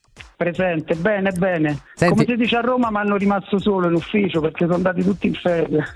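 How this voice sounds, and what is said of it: Aosta Valley Italian accent. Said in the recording (Italian): “Dall'accento, mi sembri della Val d'Aosta”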